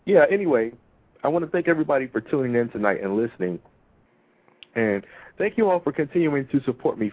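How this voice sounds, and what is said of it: Froggy, throaty voice. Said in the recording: “I have a frog in my throat”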